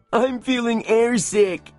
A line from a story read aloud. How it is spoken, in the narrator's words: moaned Sancho